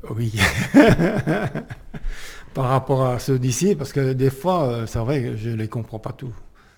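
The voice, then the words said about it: Alsatian French accent, fast speech. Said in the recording (French): “Il a son accent alsacien ... Parce qu'il parle très vite, en plus.”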